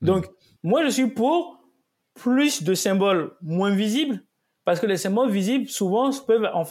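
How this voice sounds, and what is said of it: Light Ivorian accent in French. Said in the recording (French): “je suis d'origine euh, ivoirienne ... un léger accent”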